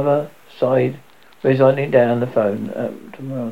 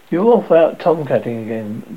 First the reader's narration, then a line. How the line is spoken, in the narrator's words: Danny said